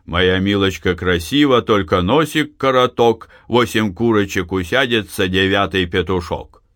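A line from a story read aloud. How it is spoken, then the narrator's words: Rough-voiced singing. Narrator (Russian): грубым голосом начал петь парень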